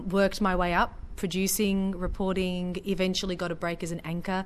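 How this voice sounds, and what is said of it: Australian accent. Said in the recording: “my foreign accent, my Australian accent ... you have that international voice”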